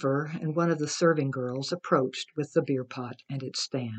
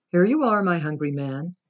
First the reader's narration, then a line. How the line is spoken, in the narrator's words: she called from the porch of the pavilion, her voice rich with affection